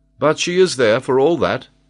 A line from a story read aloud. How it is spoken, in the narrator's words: exclaimed Glenarvan